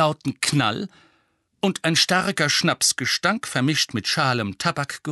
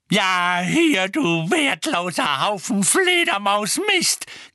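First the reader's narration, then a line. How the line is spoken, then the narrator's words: Shrieking. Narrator (German): kreischte Mrs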